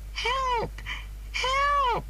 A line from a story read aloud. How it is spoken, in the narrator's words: she cried